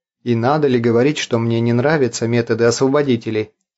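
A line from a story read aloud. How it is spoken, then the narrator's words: Plain question. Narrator (Russian): спросил Артур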